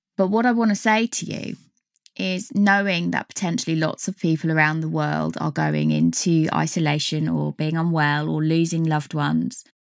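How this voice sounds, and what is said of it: Dry, strained voice. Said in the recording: “my voice is really drying up”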